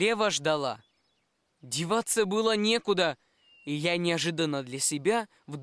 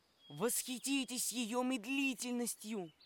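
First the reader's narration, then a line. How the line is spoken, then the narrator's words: Small page's whisper. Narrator (Russian): маленький паж прошептал мне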